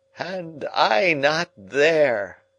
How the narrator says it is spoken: he groaned

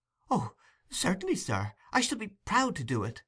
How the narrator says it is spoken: exclaimed Oliver, greatly delighted with the commission

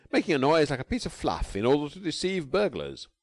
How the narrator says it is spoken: announced cheerfully

